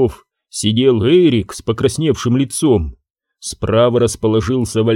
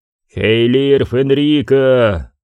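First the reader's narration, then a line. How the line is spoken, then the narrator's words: Echoing growl. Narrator (Russian): прорычал он, и отзвуки его голоса прокатились над каменными плитами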